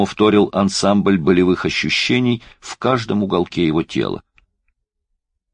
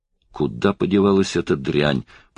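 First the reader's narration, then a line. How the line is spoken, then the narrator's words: Fierce mutter. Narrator (Russian): пробормотал он свирепо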